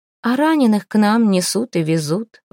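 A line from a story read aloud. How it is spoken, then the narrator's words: Sigh. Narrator (Russian): вздохнула Невена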